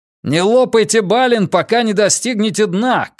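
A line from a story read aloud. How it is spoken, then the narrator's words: Shout. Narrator (Russian): крикнул Каз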